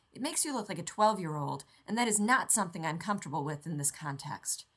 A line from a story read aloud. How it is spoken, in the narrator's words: Rodney snapped